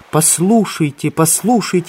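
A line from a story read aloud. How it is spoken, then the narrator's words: Exclaimed. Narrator (Russian): воскликнула она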